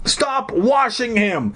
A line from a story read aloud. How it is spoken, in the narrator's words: I cried